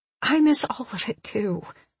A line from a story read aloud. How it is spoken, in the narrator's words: I murmur